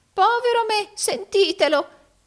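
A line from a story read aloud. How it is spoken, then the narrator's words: Exclaimed with forced laugh. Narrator (Italian): esclamò Arturo fingendo di ridere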